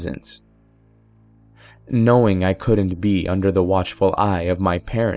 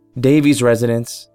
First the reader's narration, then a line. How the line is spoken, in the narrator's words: said